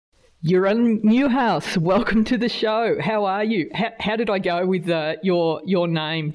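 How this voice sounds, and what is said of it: Australian accent. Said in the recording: “Did I completely butcher it with my Australian accent? ... the Australian accent, not great for getting names”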